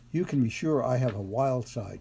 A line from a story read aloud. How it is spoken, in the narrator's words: she laughed